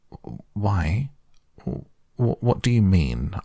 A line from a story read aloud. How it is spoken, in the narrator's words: asked Toad nervously